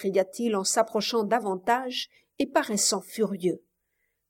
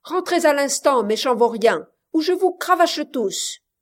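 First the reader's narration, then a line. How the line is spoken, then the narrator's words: Thunderous shout. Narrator (French): cria-t-il d'une voix de tonnerre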